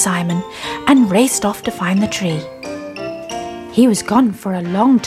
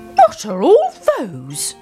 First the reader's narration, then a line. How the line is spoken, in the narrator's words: cried Old Mother Grumpy